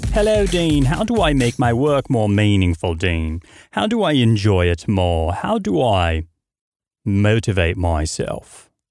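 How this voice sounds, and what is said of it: Unconvincing put-on British accent. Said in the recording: “my British accent? Were you convinced that someone else was talking? Probably not, because I'm not so sure that my British accent is very good.”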